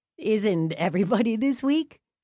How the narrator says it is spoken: John countered with a laugh

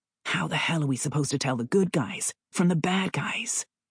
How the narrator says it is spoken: Abe muttered, stunned by the flaming hellscape

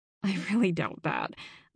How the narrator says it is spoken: I muttered

